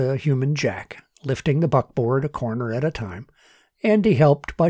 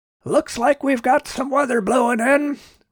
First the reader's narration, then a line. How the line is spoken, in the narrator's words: Robert shouted over the wind